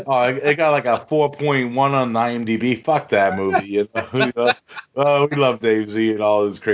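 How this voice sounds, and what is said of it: Usual voice. Nothing is said of it.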